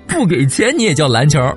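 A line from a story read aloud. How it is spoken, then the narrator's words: Laughing. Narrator (Chinese): 阿顺扑哧一声又笑了出来，他说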